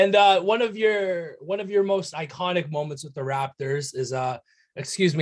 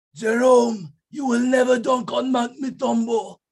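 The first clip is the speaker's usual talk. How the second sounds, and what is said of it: Imitates another person's voice. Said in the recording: “I might butcher this uh this impersonation here”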